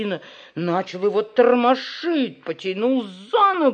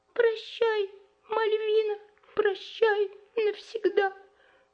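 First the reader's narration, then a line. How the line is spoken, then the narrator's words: Resigned squeak. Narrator (Russian): Он, очевидно, считал себя уже мертвым и пропищал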